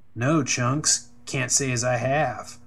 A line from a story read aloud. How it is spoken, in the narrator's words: Riley sneered